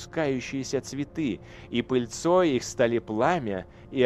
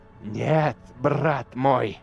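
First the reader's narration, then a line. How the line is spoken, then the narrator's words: Royal hiss. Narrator (Russian): зашипел король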